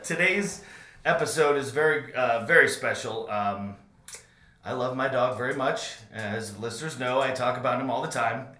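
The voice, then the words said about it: Raspy, hoarse voice. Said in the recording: “Please forgive my raspy voice. ... screaming a lot”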